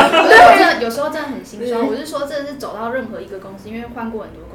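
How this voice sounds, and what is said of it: Usual voice. Nothing is said of it.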